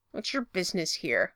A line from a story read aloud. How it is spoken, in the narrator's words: Derek growls over Stiles' shoulder